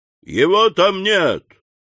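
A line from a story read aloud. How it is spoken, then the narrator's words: Loud shout. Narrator (Russian): унтер-офицер громко крикнул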